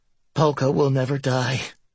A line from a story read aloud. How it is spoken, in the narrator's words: I breathed